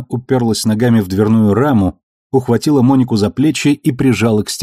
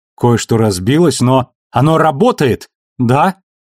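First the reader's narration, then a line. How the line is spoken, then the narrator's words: Frightened squeak. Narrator (Russian): Испуганно пискнула Моника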